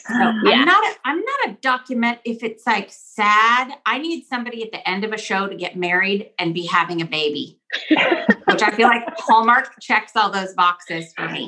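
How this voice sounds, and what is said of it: Texan accent. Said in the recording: “your accent, as you're talking about comfort food and real trees and hot chocolate, is coming from where? ... I know it does come out. ... We're from Texas.”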